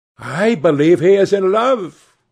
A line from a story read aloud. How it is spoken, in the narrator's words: cried Lady Narborough